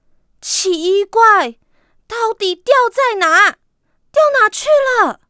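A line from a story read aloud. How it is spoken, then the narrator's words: Anxious loud clamoring. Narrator (Chinese): 啄木鸟在着急的大声嚷嚷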